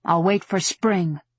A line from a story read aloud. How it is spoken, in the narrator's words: she said bitterly